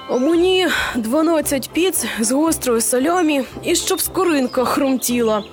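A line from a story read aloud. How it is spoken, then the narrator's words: Grumbling. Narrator (Ukrainian): буркнув вогнемет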